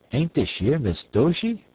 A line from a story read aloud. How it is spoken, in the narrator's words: a strong, half-confident, half-apologetic voice exclaim